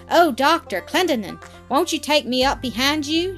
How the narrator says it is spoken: shouted the owner of one

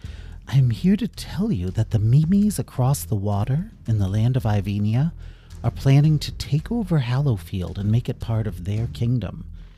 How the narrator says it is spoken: smiled warmly and said

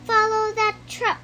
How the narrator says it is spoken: cried Buzz

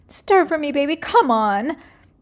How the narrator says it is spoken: Mimi desperately begs

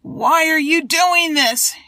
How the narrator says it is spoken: shouted

